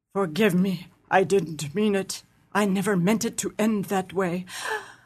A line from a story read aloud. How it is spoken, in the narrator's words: the other say in a low tone